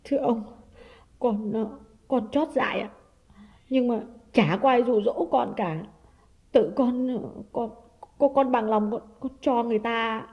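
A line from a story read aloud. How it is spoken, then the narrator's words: Trembling, tearful voice. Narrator (Vietnamese): Liệu khá lâu mới run run nói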